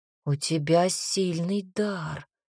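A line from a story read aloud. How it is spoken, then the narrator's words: Breathed out. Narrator (Russian): выдохнул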